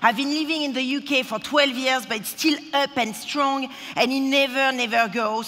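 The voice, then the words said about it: Strong accent. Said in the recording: “this accent is just so strong. I mean, it's unbelievable.”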